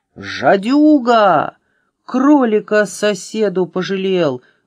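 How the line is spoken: Yelling. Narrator (Russian): вопил Минус

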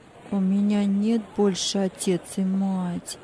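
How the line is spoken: Sad child. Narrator (Russian): печально ответил мальчик

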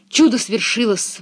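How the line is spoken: Exclaiming. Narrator (Russian): воскликнула Пеппи

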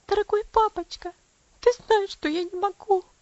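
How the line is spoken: Sobbing. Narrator (Russian): всхлипнула она

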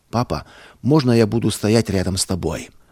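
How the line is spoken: Quiet child's question. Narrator (Russian): Павлик тихо спросил

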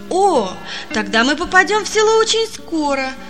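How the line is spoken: Joyful child. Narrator (Russian): радостно сказал мальчик

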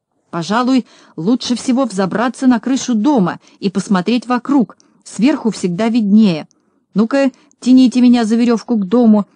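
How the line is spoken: Shouting. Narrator (Russian): закричал Знайка

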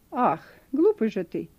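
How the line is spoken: Angry. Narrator (Russian): произнесла она сердито

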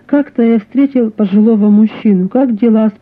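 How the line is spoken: Plain. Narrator (Russian): спросил я

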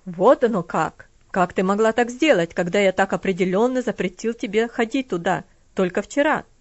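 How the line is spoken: Cold harsh question. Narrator (Russian): спросил он холодным, жестким тоном

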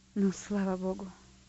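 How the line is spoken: Relieved sigh. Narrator (Russian): вздохнул свободно

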